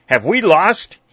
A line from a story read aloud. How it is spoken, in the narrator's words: he cried